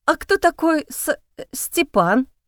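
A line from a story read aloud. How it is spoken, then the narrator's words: Stammering question. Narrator (Russian): спросила я, заикаясь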